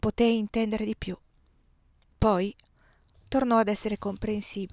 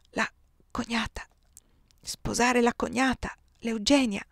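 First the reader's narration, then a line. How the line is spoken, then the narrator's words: Murmured. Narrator (Italian): mormorò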